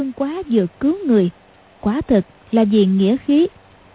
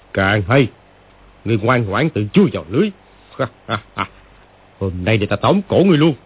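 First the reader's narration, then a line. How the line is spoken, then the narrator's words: Gleeful sneering. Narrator (Vietnamese): lão chuyển giận thành vui, cười khẩy mà nói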